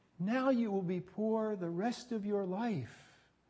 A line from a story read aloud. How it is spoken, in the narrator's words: one of them tearfully says